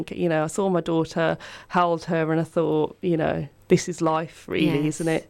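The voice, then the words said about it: Strong Birmingham accent. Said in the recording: “has a very strong accent ... coming from Birmingham”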